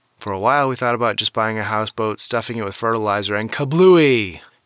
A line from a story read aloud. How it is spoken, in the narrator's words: John yelled